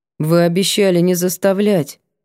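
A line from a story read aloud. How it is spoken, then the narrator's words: Gloomy reminder. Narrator (Russian): напомнила мрачно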